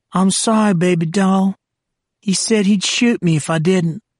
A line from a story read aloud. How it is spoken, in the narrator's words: The old woman whimpered